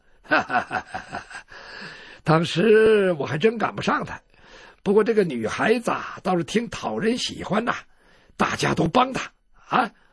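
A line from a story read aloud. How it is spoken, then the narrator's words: Laughing. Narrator (Chinese): 吴春道就笑了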